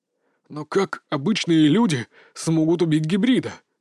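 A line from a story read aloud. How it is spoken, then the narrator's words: Strained, forced out. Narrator (Russian): выдавил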